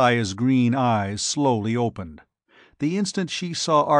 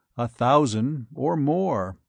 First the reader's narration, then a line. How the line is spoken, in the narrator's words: Ardath said quietly